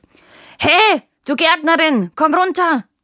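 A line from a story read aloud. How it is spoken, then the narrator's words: Frightened then bellowing. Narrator (German): sagte der Dieb ängstlich und brüllte gleich darauf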